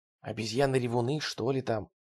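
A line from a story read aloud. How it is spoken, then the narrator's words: Whispered. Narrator (Russian): прошептал Келлен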